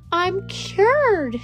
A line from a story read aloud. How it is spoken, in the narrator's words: she shouted